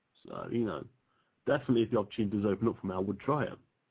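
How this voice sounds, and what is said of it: Distinctive accented English speech. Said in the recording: “his wonderful accent”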